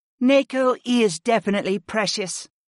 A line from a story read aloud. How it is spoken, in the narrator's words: Aaron agreed